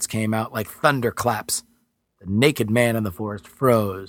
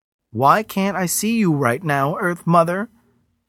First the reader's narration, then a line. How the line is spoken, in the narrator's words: began to wail